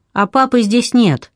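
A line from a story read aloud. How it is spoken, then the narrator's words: Called from upstairs. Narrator (Russian): Дафна тоже поднялась наверх и крикнула оттуда матери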